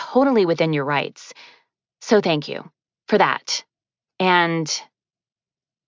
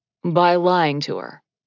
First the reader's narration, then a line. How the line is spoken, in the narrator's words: he added dryly